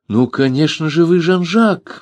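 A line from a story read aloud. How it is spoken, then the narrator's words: Exclaimed. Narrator (Russian): воскликнул студент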